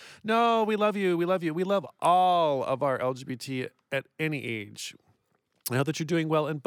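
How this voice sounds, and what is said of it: Usual voice. Nothing is said of it.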